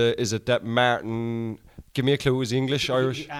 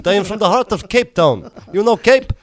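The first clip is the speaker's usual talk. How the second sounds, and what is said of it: Put-on South African accent. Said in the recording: “This is my South African accent.”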